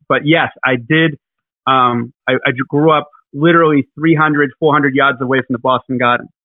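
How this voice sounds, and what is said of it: Boston accent with a lisp. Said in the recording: “he's got that Boston accent with a lisp”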